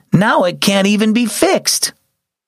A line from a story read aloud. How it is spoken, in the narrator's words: his sister exclaimed